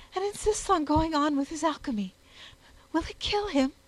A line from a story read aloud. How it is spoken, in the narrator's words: she gasped out